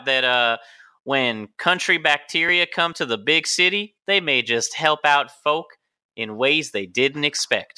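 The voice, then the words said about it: Faint put-on southern accent. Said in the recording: “Why do you have to talk like that? There's country folk that have no southern accents ... vaguely southern accent ... Just a hint. Nothing you can place.”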